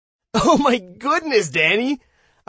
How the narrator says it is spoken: I laughed and laughed

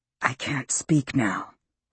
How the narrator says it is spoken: he whispered to Haley

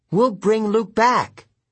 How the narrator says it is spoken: Annabeth pleaded

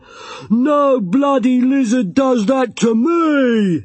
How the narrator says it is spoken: he roared

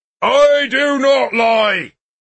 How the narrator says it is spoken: he shouted

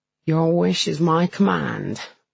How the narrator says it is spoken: says, with a groan

